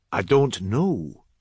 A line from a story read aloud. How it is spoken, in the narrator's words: said McCall